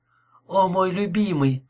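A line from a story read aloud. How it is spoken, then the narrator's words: Sigh. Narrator (Russian): вздохнула она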